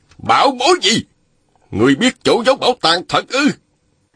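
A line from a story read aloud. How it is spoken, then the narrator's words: Shout. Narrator (Vietnamese): Ôn Phương Nghĩa hét lên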